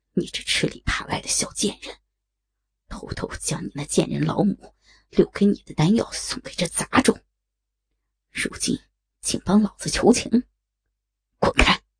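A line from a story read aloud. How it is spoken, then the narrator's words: Weak, through gritted teeth. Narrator (Chinese): 虚弱无比的柳无心，咬牙切齿的说道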